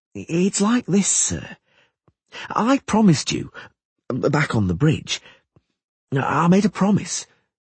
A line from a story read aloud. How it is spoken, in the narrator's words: he said hesitantly